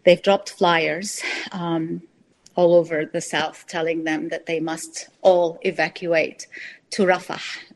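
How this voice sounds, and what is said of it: Shaky, emotional voice. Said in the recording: “my voice is a little bit shaky”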